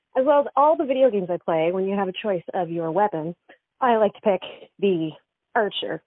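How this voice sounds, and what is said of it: Breathless, out-of-breath voice. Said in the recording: “I'm very shy, if you can't tell, by my being out of breath.”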